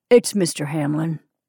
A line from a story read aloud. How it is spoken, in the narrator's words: said Seth quietly